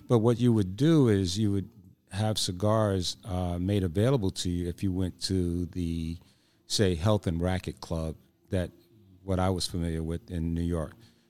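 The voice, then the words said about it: Strained, fading voice. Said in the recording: “excuse me, I'm losing my voice.”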